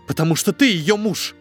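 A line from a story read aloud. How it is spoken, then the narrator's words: Barked. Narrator (Russian): рявкнула Вера Павловна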